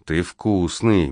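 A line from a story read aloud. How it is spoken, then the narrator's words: Muttering. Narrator (Russian): бормочет она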